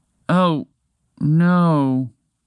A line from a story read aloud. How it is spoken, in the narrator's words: Montgomery the Moose said sadly